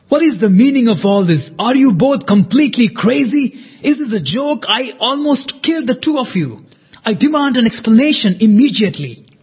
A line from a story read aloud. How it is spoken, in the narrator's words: shouted Yoshiko